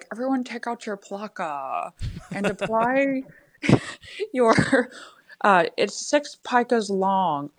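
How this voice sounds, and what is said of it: Imitates another person's voice. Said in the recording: “my impression of my freshman class typography teacher ... I had this impression where he'd be like”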